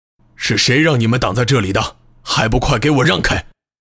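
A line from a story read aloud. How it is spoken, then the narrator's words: Stern demand. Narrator (Chinese): 厉声责问道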